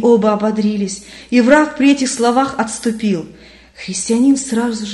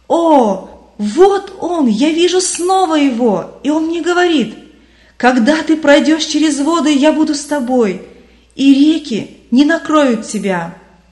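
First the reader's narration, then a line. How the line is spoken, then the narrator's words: Loud jubilant exclamation. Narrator (Russian): Вдруг христианин громким ликующим голосом воскликнул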